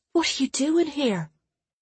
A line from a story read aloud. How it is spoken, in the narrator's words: Nona whispered, her words largely lost as Clara's chest scraped across her face